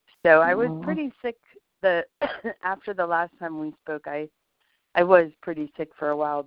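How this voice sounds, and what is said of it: Raspy voice. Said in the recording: “you have a good bit of a cold? ... my raspy voice ... my voice has been altered definitely ... any little bit of like if I'm tired or anything just makes my voice raspy”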